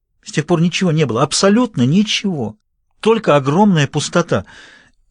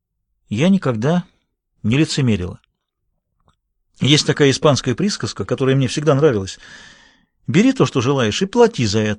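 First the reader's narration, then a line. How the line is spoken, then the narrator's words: Plain. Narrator (Russian): сказал Господь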